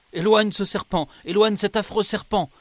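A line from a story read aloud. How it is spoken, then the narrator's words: Terrified cry. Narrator (French): s'écria-t-il avec effroi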